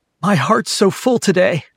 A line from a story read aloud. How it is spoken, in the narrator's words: announced clearly, and that's typically followed by sobs